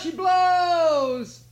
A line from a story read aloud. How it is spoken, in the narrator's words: he cried